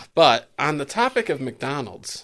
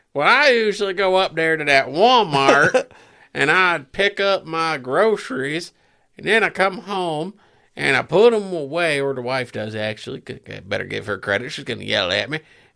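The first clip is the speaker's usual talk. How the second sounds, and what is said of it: Put-on Southern American accent. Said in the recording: “American accent. ... Are you from the South? No. The Deep South? ... I had to put on my American voice.”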